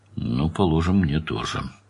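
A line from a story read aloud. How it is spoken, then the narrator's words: Grumbled. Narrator (Russian): проворчал Данил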